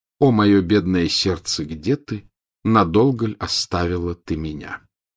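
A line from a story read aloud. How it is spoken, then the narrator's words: Purring, humming. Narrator (Russian): Селестина продолжала мурлыкать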